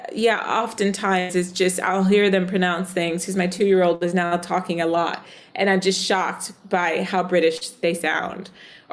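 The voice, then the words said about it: American accent, somewhat Southern. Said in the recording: “my American accent ... I grew up in the South ... my accent is a bit stronger”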